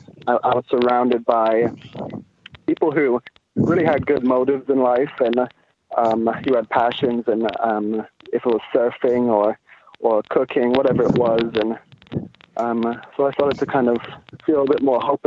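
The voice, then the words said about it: London-influenced English accent. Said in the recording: “people can tell now by your accent ... you spent a lot of time growing up ... in London”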